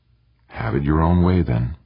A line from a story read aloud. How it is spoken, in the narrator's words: he said softly